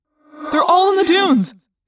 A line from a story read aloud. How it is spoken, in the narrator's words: Tobias cried